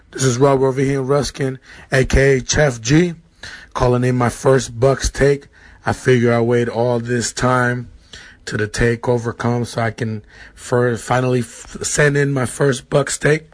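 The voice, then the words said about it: Hoarse, worn-out voice. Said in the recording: “my voice is gone. I can't even scream.”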